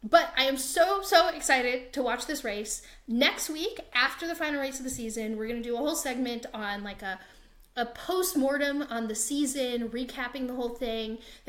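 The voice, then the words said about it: American accent. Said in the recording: “with my American accent”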